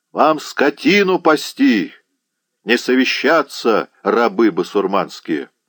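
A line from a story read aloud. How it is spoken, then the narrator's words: Thunderous shout. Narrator (Russian): Кричевский крикнул громовым голосом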